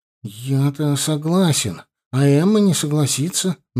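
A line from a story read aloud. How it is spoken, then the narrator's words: Gruff mumble. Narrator (Russian): наконец буркнул он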